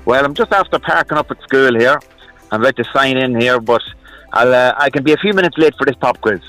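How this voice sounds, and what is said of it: Irish accent. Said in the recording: “The accent is Irish. ... Love the Irish. Love the accent.”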